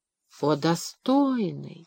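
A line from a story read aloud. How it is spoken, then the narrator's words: Whining. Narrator (Russian): снова заскулил Синам ага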